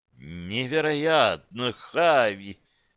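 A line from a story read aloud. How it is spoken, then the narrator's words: Breathless amazed female voice. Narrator (Russian): выдохнула Таргин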